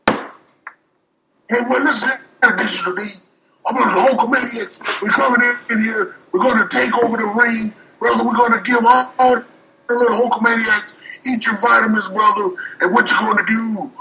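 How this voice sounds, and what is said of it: Hulk Hogan wrestler impression. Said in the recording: “your best Hulk Hogan impersonation ... That was wonderful.”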